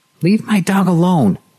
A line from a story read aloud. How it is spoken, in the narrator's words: she shouted at him